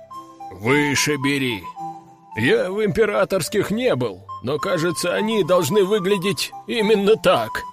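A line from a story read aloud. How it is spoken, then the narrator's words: Chuckling. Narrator (Russian): Хохотнул Брак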